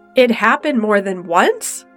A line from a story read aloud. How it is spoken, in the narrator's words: said too loudly